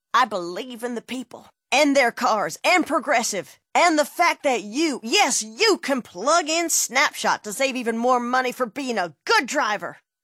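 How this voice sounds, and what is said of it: Politician voice impression. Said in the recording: “my impression of a politician”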